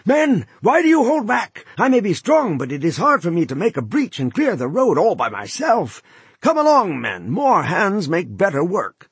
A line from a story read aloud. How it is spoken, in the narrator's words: He wheeled about and shouted